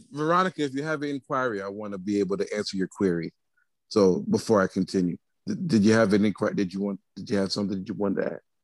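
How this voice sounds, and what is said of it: Formal news reporter voice. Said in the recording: “He put on his good reporter voice ... I'm done with that voice. ... Peter Jennings”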